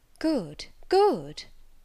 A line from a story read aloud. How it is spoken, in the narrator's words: she exclaimed